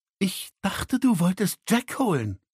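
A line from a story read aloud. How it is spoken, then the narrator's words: Hissed. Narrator (German): fauchte sie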